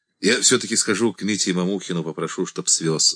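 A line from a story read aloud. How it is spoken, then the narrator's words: Plain. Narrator (Russian): сказал Саша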